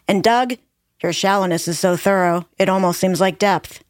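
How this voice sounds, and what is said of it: Impression of Daria cartoon character. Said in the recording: “That was my Daria impression ... Very good Daria impression.”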